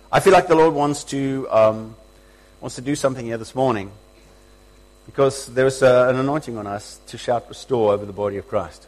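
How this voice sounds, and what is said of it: Strained, unwell-sounding voice. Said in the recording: “my voice is not doing well”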